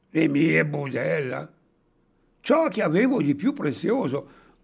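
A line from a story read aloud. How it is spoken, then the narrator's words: Indignant shout. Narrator (Italian): gridò il Pancetti indignato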